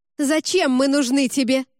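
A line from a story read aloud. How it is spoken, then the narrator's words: Shouting. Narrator (Russian): снова выкрикнула кухарка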